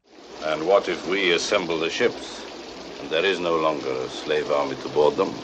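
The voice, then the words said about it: Foreign accent, subtle voice. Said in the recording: “you can hear that accent. It could be perfect for villainy ... very good English ... what an interesting, subtle voice he had ... on his accent ... all foreigners are sinister”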